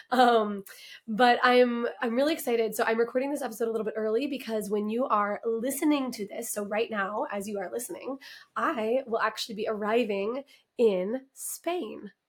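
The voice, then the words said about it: Raspy, hoarse voice. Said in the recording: “bear with me with the raspiness ... as soon as I can like actually hold a pitch with this raspy voice”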